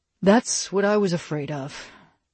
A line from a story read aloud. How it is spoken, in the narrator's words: Dylan said wearily